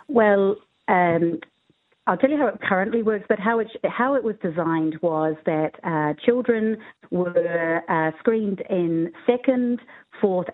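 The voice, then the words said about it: New Zealand accent. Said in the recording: “we can tell from your accent why you're called”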